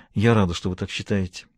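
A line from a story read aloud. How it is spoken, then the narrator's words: Mumble. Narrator (Russian): пробормотала она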